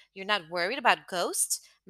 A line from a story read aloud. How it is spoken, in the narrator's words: Melanie laughed